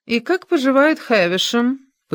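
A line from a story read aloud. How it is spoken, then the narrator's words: Feigned indifference. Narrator (Russian): поинтересовалась делано безразличным тоном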